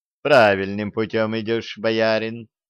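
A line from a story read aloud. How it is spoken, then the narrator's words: Woman laughing. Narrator (Russian): рассмеялась царица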